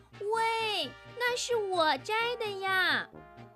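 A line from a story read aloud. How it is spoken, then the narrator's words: Loud indignant shout. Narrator (Chinese): 瞪着眼，大声地喊道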